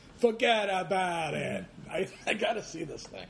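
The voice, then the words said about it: Over-the-top Italian accent. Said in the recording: “a really, like, over-the-top Italian accent”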